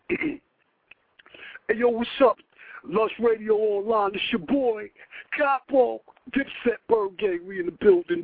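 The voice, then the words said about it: Jim Jones impression. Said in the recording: “you want to have me do a Jim Jones impersonation? ... Let me do Jimmy.”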